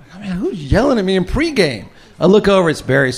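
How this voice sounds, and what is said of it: Usual voice. Nothing is said of it.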